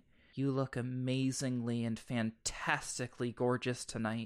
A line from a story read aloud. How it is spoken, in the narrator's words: murmuring